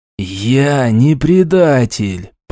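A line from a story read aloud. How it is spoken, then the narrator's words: Hissed syllable by syllable. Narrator (Russian): по слогам прошипел Роквелл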